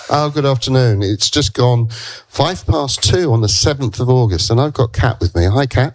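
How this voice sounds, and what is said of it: Slightly congested voice from a cold. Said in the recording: “I've got a bit of a cold.”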